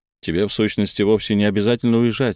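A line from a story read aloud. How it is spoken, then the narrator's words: Plain. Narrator (Russian): сказал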